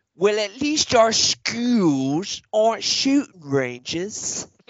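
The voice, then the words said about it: Attempted British accent. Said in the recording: “I can't do a British accent... To get to the British accent, I always have to start with the”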